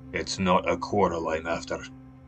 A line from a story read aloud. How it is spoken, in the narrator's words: growled Smith